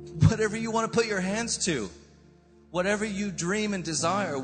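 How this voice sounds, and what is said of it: American accent. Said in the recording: “I sound American,”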